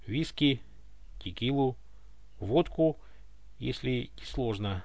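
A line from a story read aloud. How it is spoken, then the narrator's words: Hoarse mutter. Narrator (Russian): пробормотал он вновь осипшим голосом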